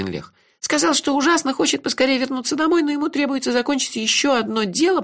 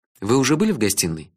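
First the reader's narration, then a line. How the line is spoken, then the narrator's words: Plain. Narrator (Russian): спросил я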